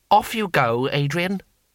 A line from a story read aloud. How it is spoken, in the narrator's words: he said firmly